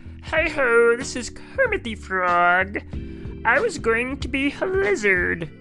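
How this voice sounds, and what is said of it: Bad Kermit the Frog voice. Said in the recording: “worst Kermit impression”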